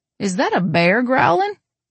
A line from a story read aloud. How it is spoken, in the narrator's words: Lily giggles